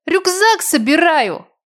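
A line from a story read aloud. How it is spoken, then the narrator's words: Young child yelling. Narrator (Russian): завопил мой первоклашка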